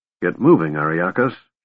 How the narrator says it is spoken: she muttered

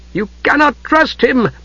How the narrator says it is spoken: the Night Lord cried

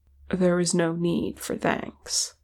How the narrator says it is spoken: Legolas said gently

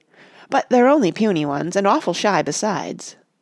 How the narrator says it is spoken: he added hastily

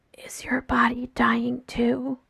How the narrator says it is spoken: Jason whispers

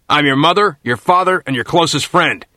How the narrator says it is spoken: bellowed at the top of his voice

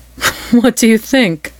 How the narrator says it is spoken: asked and laughed again

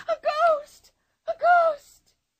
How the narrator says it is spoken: Anika shrieked with him

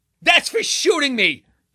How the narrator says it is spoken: shouted

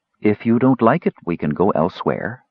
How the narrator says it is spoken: the counselor said coolly

